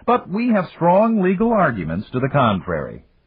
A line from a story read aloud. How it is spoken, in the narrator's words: Dan admitted cheerfully